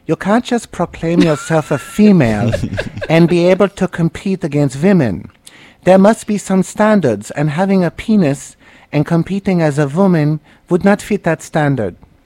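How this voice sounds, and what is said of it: Imitates another person's voice. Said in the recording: “my Martina Navratilova impression”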